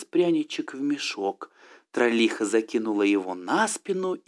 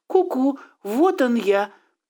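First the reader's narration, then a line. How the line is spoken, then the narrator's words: Squeaky. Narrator (Russian): пропищал Пряничек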